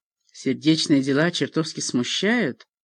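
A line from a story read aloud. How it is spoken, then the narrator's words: Muttering under breath. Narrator (Russian): он пробормотал это себе под нос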